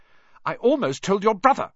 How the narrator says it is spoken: Hermione snapped

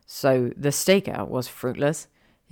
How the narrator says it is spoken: growled

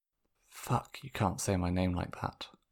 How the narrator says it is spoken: Sokka whispered to himself

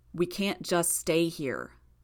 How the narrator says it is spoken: Gru said

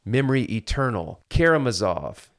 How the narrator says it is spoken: cried Kolya

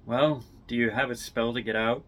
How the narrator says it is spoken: Icefire chuckles

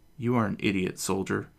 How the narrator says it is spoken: Tatiana points out coldly

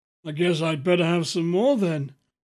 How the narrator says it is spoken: he said with a weak chuckle

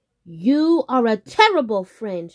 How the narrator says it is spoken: shouted Rabbit

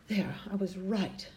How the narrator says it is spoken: she sighed with great relief

